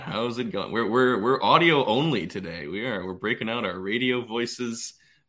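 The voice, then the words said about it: Put-on radio announcer voice. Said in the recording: “that was a good radio voice ... I was channeling my uh, Frasier Crane impression”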